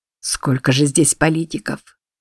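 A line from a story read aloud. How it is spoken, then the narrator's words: Quiet. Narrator (Russian): тихо сказал Джордж Констанции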